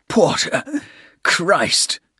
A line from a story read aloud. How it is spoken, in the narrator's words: said in a hoarse tone